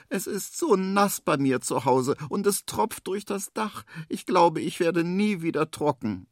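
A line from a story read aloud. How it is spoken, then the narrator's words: Small kangaroo whining. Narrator (German): jammert da das kleine Känguru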